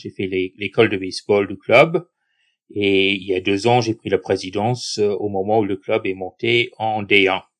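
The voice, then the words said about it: Foreign accent speaking French. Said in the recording (French): “à ton accent, on imagine que tu viens pas du sud de la France ... avec un accent comme le tien”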